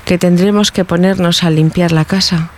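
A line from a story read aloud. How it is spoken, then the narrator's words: Regretful tone. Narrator (Spanish): dijo Juanita con tono pesaroso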